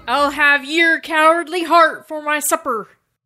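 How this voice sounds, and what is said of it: Pirate voice. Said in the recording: “Talk like a pirate?”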